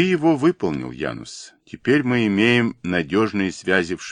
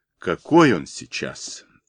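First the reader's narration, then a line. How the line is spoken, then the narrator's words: Thoughtful. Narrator (Russian): задумчиво произнес Янус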